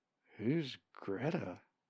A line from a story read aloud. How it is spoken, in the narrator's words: He muttered